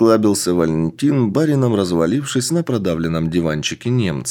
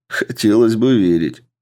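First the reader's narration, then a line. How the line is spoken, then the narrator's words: Chuckling officer. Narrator (Russian): хохотнул подполковник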